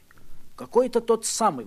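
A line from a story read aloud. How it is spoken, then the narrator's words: Exclaimed. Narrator (Russian): воскликнул я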